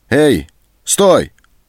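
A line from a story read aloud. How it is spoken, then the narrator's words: Shouted. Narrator (Russian): крикнул Антон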